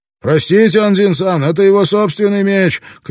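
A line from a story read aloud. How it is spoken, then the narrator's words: Shouting over others. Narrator (Russian): крикнул один из них, перекрывая голоса остальных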